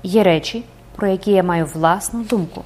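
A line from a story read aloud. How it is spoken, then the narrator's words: Calm answer. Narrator (Ukrainian): Архідіякон відповів спокійно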